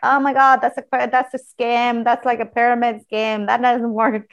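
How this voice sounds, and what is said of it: Mocking imitation of skeptical friends. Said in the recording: “I'm imitating the voices of my friends”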